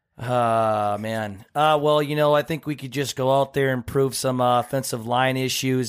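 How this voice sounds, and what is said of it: Impersonation of Kirk. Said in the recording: “you have a good Kirk impersonation ... With as Kirk”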